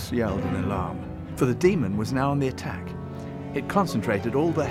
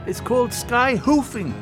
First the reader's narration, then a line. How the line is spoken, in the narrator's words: called out